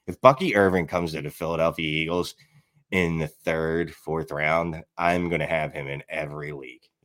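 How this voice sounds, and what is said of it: Philadelphia accent. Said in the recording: “I'm from Philly. Like I'm born and bred, like my accent, I can't get rid of it no matter how much I try.”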